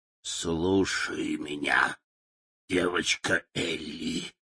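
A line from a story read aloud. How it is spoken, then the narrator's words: Hoarse croaking. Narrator (Russian): хрипло прокаркала она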